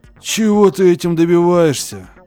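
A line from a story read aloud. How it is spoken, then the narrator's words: Shouting. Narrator (Russian): Закричал Уордман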